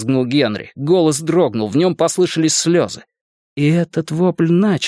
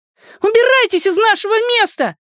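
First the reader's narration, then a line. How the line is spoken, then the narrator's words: Shouted. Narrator (Russian): крикнула Беверли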